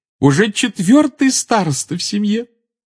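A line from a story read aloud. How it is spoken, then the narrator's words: Adoring exclamation. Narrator (Russian): с обожанием воскликнула она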